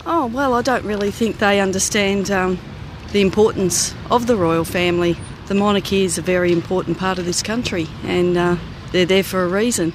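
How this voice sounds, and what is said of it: Australian accent. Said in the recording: “that accent, where are you from? ... I'm from Australia.”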